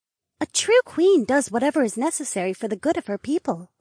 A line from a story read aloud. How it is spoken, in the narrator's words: Robbie chirped